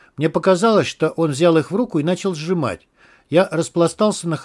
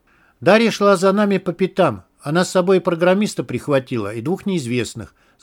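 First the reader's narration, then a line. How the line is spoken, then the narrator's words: Plain. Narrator (Russian): сказал полковник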